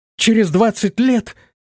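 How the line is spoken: Astonished exclamation. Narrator (Russian): воскликнула пораженная девушка

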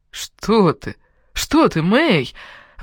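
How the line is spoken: Emotional exclamation. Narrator (Russian): воскликнул с таким чувством

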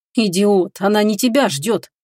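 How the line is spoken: Inner angry growl. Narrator (Russian): мысленно рыкнул на себя

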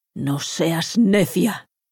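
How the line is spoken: Growled. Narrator (Spanish): gruñó

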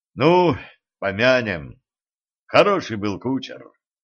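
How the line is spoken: Mournful voice. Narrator (Russian): траурным голосом сказал

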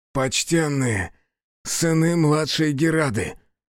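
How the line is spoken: Hoarse rasp. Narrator (Russian): прохрипел Хицу

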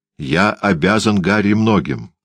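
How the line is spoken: Plain, after a pause. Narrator (Russian): сказал он наконец

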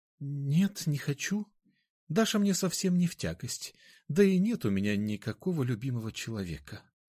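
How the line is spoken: Barely audible. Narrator (Russian): еле слышно ответила она

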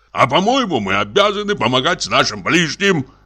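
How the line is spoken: Shouted. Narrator (Russian): крикнул Самойленко

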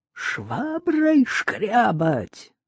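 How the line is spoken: Menacing cry. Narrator (Russian): грозно вскрикнула она

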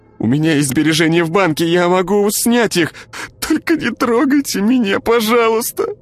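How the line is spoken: Sobbing plea. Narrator (Russian): всхлипнула Ира

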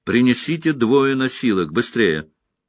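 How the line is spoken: Loud command from next room. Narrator (Russian): Кто-то в той комнате громко распорядился о носилках

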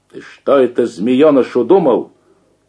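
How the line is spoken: Shout. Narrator (Russian): Крикнул

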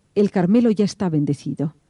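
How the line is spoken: Grumpy voice. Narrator (Spanish): El vicario general, con voz malhumorada, dijo

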